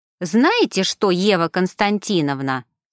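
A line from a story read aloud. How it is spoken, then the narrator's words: Offended declaration. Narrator (Russian): обиженно заявил Павел Николаевич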